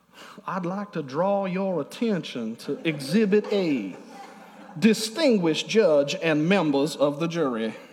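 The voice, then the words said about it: Put-on Southern Savannah accent. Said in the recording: “Colonel Sanders looking guys in a courtroom with a Savannah accent”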